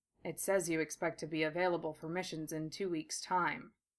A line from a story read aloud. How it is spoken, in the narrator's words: Gatta said in a perfect monotone